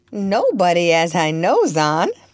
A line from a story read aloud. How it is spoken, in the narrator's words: replied Topsy with a laugh